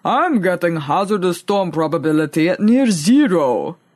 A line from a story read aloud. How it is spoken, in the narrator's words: rumbled in reply